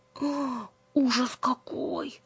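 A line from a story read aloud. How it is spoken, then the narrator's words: Whispered. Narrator (Russian): шептала она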